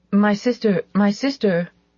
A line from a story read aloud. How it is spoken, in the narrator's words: Ilse stammered